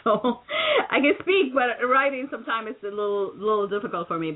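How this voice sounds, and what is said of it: Slight non-native accent. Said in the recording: “I have a little bit of accent”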